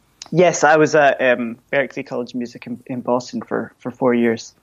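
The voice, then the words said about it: Scottish accent, somewhat softened. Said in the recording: “How did your accent go down over there? ... I think probably any Scot who's ... softening my accent probably”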